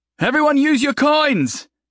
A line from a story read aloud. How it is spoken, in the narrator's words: he shouted out